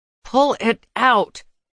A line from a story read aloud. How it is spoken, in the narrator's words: I said through clenched teeth, my hands shaking